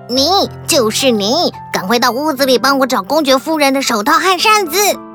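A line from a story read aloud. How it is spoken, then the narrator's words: Loud. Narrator (Chinese): 兔子先生大声地说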